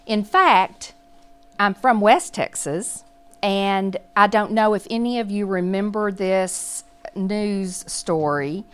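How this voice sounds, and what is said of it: Southern Texas accent. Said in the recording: “as you can tell from my accent, I am from the South. I'm from Texas.”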